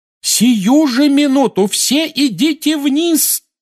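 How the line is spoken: Yell. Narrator (Russian): завопила миссис Уизли

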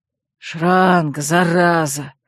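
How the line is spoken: Grumbling old man. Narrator (Russian): проворчал подошедший седой

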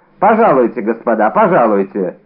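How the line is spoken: Loud. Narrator (Russian): громко произнес Д'Артаньян

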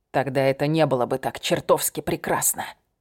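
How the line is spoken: Growled. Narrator (Russian): прорычал

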